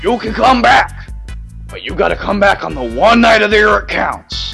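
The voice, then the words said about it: Vince McMahon impression. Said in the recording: “That's one hell of an impression... it's not a bad impression at all”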